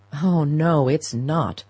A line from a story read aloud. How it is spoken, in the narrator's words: her son groaned